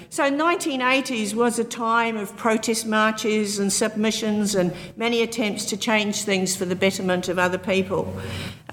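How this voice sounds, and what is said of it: Non-New Zealand accent. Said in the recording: “as you can tell by my accent, I'm not New Zealand born”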